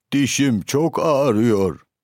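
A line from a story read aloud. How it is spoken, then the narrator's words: Moaning. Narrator (Turkish): diye inlemiş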